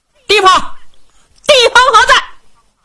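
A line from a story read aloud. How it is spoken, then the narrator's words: Loud shouting. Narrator (Chinese): 高声喊嚷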